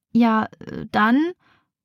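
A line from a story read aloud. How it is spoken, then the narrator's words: Stammered. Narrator (German): stottert Rebecca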